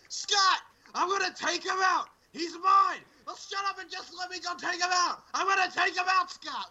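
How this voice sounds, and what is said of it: Shouting, yelling loudly. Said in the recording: “I just did the yell there ... why is everybody yelling? ... I don't know why we're yelling!”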